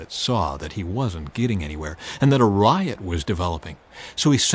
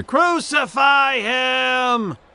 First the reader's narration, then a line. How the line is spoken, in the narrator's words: the mob roared even louder